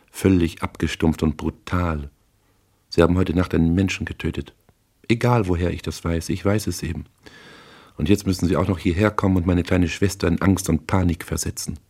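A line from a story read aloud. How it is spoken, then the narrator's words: Calm. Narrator (German): sagte sie ruhig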